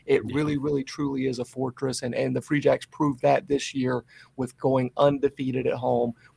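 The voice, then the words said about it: Slightly hoarse voice. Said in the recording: “My voice is still a little hoarse. I'm sure you can hear it here. ... I think the smoke got everybody a little extra hoarse.”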